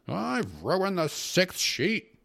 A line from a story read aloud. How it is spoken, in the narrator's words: exclaimed angrily